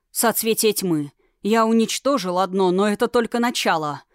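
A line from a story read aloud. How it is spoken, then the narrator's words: Through gritted teeth. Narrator (Russian): процедил лунданец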